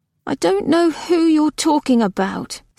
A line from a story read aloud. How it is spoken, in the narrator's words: said Nona miserably